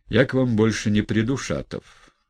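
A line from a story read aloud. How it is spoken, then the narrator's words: Quiet. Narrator (Russian): тихо проговорил Ставрогин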